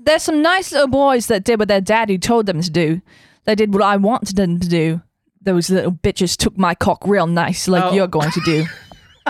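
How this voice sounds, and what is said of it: Put-on English accent. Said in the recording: “do it with an English accent ... Do it with the English accent.”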